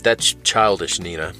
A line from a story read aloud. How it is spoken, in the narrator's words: she sighed